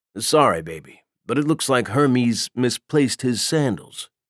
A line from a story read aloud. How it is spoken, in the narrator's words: Triton said calmly